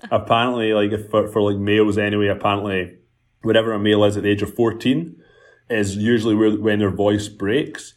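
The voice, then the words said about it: Scottish accent with Canadian touch. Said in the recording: “I told Jessica that you have a Scottish accent,⟧ but it's like, because you're also in Canada, I feel like you have this Scottish Canadian surfer vibe”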